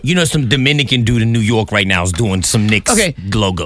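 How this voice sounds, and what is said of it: Put-on Dominican New Yorker accent. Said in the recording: “As soon as he said New York, he tried to put an accent on it. ... That's my Dominican New Yorker.”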